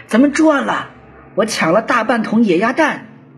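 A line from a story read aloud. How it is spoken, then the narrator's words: Excited shout. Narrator (Chinese): 高建中 兴冲冲的 他大喊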